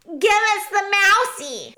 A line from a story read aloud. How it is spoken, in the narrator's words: shouted one of the rats